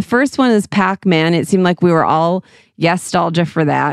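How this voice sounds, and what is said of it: Usual voice. Nothing is said of it.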